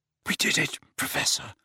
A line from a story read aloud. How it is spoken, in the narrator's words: Harry whispered with difficulty